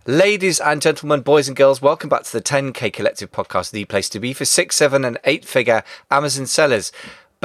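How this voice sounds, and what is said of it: British English accent. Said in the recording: “a lot of our listeners are UK-based, of course, as you can tell from the accent. I'm in London, England”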